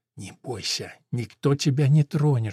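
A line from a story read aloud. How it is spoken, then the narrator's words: Ghostly woman's whisper. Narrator (Russian): шепнула похожая на бесплотный дух женщина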